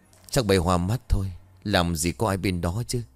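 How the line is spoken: Sighing. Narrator (Vietnamese): Thím thở dài rồi nói

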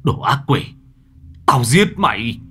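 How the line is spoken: Anguished, furious shout. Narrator (Vietnamese): Anh Bình gào lên đau đớn giận dữ

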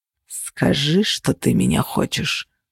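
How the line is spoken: Growl. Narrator (Russian): зарычал он

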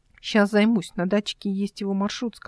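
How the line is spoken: Plain. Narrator (Russian): сказала Эл

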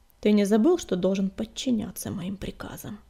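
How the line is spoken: Dry question. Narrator (Russian): сухо спросил Огнегриф

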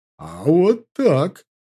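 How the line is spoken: Excited exclamation. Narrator (Russian): с азартом воскликнул он

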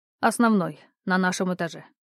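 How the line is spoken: Dry, flat tone. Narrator (Russian): сухо произнес Антон

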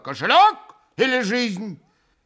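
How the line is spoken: Frenzied shout. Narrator (Russian): фигура неистовым голосом прокричала

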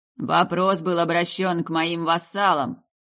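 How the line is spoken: Demon growl from stairs. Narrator (Russian): рыкнул демон с лестничной площадки

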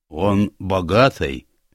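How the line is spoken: Grumbling. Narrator (Russian): буркнула она

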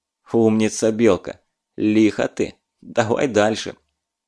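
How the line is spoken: Over the radio. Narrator (Russian): Я прокомментировал это в радиоэфире

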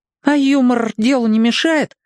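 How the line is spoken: Uncertain question. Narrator (Russian): неуверенно спросил Кап

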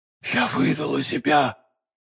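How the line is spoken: Whisper. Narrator (Russian): прошептала миледи

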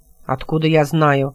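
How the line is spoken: Gruff mutter. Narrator (Russian): буркнул Демиург

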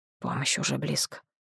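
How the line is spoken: Whisper. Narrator (Russian): шепнул Нахт командиру

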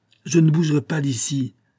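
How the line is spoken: King exclaiming. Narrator (French): s'écria le roi

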